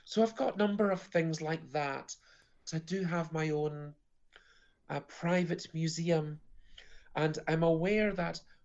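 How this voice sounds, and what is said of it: Slightly croaky voice. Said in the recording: “my voice is slightly croaky from being on stage this evening”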